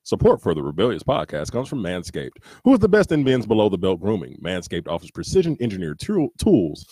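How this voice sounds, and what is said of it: Announcer-style radio voice. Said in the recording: “do the voice. ... Do the radio voice.”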